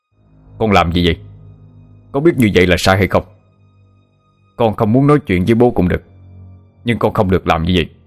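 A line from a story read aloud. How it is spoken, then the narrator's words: Angry shout. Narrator (Vietnamese): Bố Ratana tức giận quát lên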